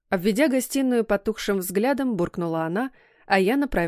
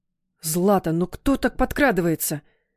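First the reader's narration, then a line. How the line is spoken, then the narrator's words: Startled grumble. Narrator (Russian): Вздрогнув, заворчал он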